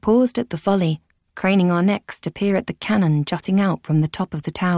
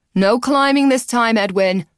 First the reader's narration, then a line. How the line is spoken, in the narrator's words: Alex called out